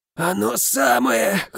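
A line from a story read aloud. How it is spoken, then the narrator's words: Hoarse reply. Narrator (Russian): хрипло отозвался я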